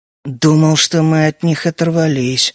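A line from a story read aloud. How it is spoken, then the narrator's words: Irritated mutter. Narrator (Russian): раздраженно буркнул я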